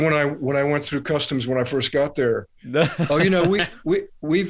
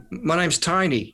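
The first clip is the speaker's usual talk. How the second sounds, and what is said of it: Weak attempt at Australian accent. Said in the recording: “I can't do an Australian accent very well”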